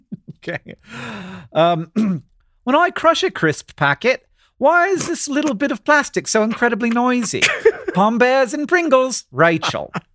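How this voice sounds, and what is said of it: Inconsistent put-on English accent. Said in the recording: “you're going to have to finish this one in your English accent ... I went all over the place. I was in every region. ... I felt like I was in the musical Oliver. And then at one point, I felt like I was at a fish and chip stand, but like not in England, like maybe one in like Peoria”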